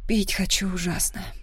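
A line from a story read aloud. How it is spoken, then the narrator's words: Breathless exhale. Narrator (Russian): выдохнула я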